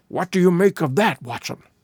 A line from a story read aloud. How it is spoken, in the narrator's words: Holmes whispered